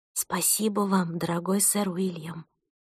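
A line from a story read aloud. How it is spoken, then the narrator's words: Whisper to oneself. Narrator (Russian): прошептала я про себя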